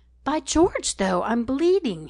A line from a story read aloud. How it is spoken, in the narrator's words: he exclaimed